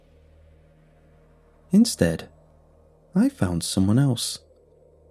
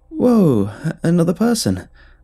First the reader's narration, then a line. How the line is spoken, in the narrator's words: I exclaimed, hoping to sidestep the awkwardness